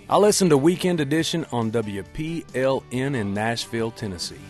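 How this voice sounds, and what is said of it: Put-on Southern twang. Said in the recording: “with a twang”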